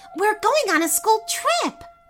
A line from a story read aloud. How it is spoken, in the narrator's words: Kara cried, jumping in the air